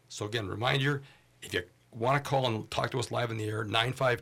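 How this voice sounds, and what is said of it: Voice rougher than usual. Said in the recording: “my voice is a little bit less quality than it usually is here”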